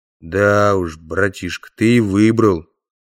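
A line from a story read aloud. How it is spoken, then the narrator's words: Very gloomy drawl. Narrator (Russian): весьма мрачно протянул один из стражников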